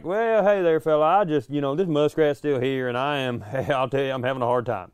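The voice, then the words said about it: Put-on Southern hillbilly accent. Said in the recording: “using a Southern accent ... I sound like an unraveling, like, hillbilly”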